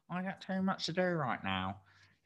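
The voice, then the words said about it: Silly funny voice. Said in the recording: “I am going to do a funny voice because that's what my head used to do to me ... in my funny voice ... I'm just going into funny mode right now”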